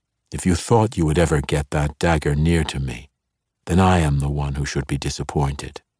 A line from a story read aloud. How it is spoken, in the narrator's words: Zacnaphane answered evenly